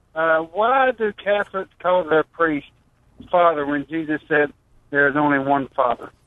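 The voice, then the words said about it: Kentucky Southern accent. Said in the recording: “Love that accent ... That's old Kentucky.”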